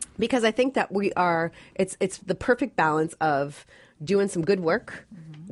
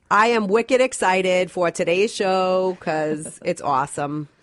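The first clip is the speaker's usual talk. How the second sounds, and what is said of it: Exaggerated Massachusetts accent. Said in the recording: “wicked excited, as we would say in Massachusetts... Can you say it with the accent?”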